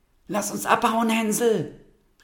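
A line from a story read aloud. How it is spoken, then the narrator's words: Calling out. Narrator (German): rief sie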